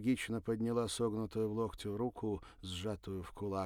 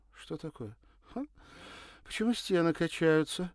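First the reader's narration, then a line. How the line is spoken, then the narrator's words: Giggling. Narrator (Russian): хихикнула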